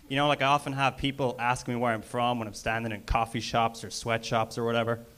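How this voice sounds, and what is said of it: Irish accent. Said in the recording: “It gets pretty old having an accent ... All the way from Ireland”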